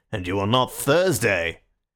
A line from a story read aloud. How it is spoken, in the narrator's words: another anarchist added in a heavier voice